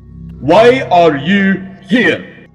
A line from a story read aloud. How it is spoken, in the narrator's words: Troupier shouted at the recruits